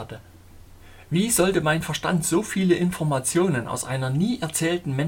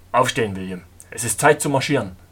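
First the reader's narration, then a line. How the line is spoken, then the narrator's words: Firm, commanding voice. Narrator (German): sagte mit fester Stimme, fast wie ein Befehl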